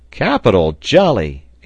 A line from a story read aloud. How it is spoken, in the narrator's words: exclaimed Pencroft